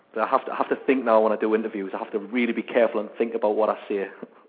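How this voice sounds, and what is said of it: Strong northern English accent. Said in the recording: “I've got a very, very strong accent. I live just beside Scotland, up the north of England there ... in a beautiful county called Northumberland ... I have got a very, very northern accent, but not as northern as I used to have.”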